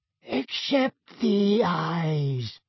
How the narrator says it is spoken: said a wheezy-voiced, silver-haired wizard

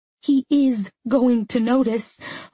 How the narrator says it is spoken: coughed back the laugh

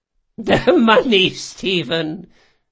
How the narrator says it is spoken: she chuckled

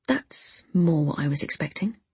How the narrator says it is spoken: I muttered

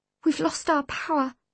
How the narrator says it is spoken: said feebly

